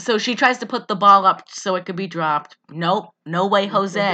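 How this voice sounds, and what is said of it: Usual voice. Nothing is said of it.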